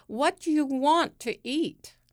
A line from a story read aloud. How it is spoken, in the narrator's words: Ian's sisters yell a duet